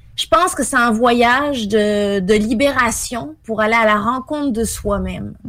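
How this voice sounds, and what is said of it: French accent with Québécois intonations. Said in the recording (French): “il me semble qu'elle a un petit accent, elle, qui n'est pas tout à fait québécois... Il y a des petites intonations... Mais il y a aussi des petites intonations québécoises”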